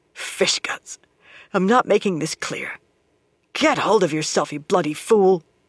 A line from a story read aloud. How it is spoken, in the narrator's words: growled to herself